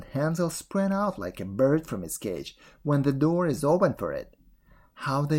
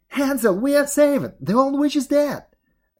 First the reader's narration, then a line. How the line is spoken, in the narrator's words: Gretel cried